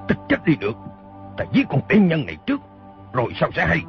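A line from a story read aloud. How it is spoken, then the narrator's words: Shouting. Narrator (Vietnamese): Y quát lên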